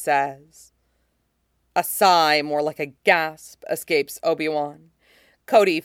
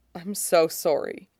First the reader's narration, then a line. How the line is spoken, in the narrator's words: Obi-Wan murmurs, barely audible